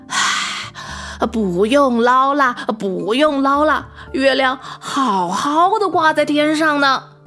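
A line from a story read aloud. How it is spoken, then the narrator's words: Panting. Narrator (Chinese): 他喘着气说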